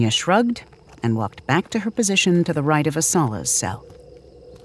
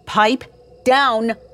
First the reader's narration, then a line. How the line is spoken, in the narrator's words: Kenya shouted